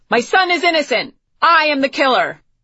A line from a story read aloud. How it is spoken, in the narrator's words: shouted